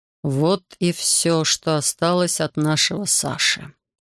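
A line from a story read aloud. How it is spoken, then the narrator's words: Quiet. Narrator (Russian): тихо сказал он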